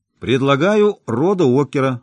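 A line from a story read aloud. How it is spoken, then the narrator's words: Shouting out. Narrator (Russian): выкрикнул Джимми Трокстон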